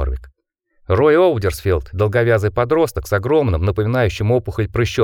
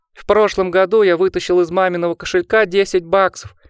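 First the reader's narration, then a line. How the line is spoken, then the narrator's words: High shrill announcement. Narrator (Russian): объявил высоким пронзительным голосом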